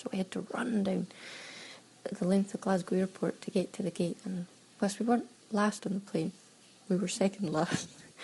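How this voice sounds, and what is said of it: Hard-to-understand regional accent. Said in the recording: “she couldn't understand my accent”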